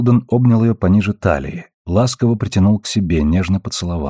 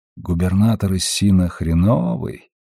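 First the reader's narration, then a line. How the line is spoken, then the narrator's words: Quiet guess. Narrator (Russian): тихо предположил он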